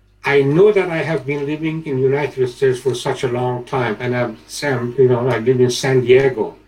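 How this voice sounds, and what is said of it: Non-native accent in English. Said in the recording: “you can say from my accent that I'm not from San Diego”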